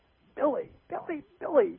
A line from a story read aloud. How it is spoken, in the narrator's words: Nana screamed and cried